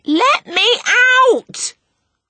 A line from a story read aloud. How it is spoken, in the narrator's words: her shout